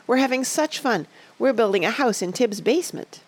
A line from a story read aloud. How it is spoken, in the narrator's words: cried Betsy